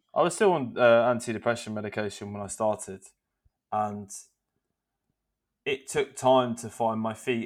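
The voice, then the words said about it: Loud, non-posh British accent. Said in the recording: “So I'm a bit loud and I'm not well spoken... this is not a posh accent... anyone in the UK is gonna be like, yeah, not posh”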